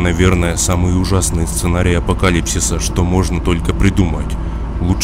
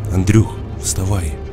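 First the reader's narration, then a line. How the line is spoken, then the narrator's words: Quiet speech. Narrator (Russian): Тихонько сказал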